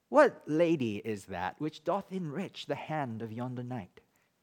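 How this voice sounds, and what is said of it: Put-on British accent. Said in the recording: “I'll try to bring back the British accent that I learned growing up in Hong Kong.”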